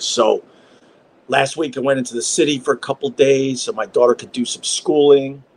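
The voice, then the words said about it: Lowered, quieter speaking voice. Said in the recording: “I got to lower my voice for this one.”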